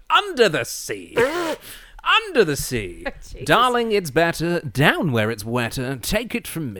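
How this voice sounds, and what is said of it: Posh English accent, sung. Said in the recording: “it wouldn't have worked with a Rex Harrison Englishman.”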